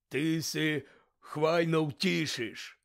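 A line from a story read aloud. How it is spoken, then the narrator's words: Hoarse reply. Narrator (Ukrainian): хрипко озвався Гегріт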